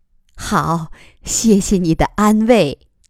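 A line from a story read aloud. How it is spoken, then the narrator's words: Smiling. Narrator (Chinese): 苗瑶笑着说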